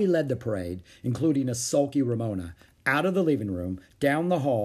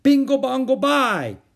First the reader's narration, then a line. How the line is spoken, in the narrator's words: yelled the flag wavers